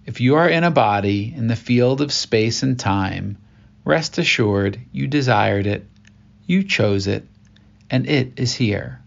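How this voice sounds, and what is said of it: Slow, deliberate reading. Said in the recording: “I read this slowly, intentionally.”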